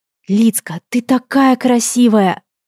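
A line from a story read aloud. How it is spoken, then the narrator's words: Touched whisper. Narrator (Russian): растроганно прошептала Аиста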